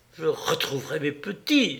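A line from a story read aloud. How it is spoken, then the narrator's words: Woman's exclamation. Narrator (French): s'écrie-t-elle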